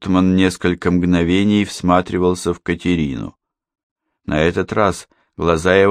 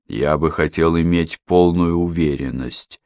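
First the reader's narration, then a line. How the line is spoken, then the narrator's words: Plain. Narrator (Russian): ответил он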